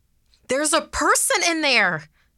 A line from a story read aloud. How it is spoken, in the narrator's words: someone shouted